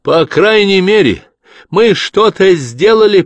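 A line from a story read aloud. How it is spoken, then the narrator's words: Shouted after. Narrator (Russian): прокричала она им вслед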